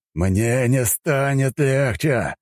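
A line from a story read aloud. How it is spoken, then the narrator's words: Growled. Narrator (Russian): прорычал Сильвио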